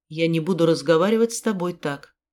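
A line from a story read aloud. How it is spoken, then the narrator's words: Calm over screaming. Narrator (Russian): спокойно бросил он сквозь мои вопли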